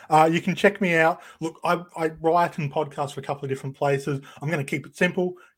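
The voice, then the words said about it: Australian accent. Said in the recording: “the dulcet tones of my Australian accent”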